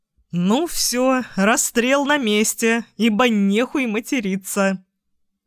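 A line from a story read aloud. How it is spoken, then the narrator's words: Chuckling. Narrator (Russian): хохотнул я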